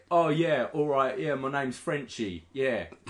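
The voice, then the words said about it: Mock English accent imitating character. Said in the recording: “the other main character was French-Canadian ... French-Canadian. And sounded English ... He didn't sound like Sami Zayn at all.”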